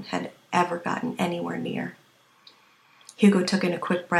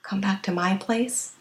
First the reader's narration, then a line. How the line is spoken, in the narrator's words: Kevin panted against Hugo's temple